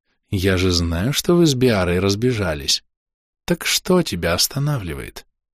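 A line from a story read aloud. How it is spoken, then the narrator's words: Hot, alluring whisper. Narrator (Russian): От этого жаркого, манящего шепота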